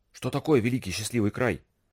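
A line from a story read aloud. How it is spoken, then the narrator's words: Whispered question. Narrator (Russian): спросил шепотом Найл у Масига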